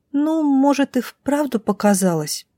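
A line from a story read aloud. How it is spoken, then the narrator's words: Uncertain drawl, little girl. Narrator (Russian): неуверенно протянула мелкая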